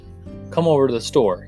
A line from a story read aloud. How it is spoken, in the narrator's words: he said